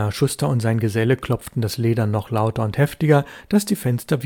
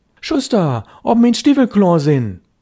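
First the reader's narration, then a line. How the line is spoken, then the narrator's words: Calling louder. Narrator (German): Störtebecker rief schon lauter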